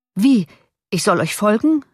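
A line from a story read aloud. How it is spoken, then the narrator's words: Called out. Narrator (German): rief der Doktor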